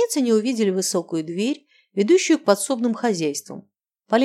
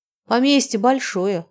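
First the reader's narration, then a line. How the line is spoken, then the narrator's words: Sighing. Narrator (Russian): Анжелика вздохнула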